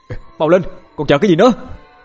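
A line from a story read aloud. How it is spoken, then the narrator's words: Angry shout. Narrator (Vietnamese): Cậu Điền nổi giận quát lên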